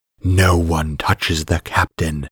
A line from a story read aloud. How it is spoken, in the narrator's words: growled